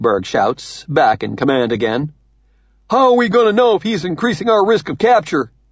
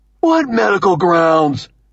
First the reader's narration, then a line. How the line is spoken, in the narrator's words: Munkberg shouts, horrified